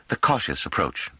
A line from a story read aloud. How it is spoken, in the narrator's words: said Pellerat warmly